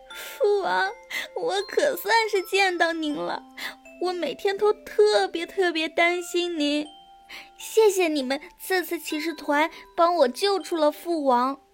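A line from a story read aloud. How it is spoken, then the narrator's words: Sobbing. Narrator (Chinese): 公主一下子就哭了出来，她抽泣着说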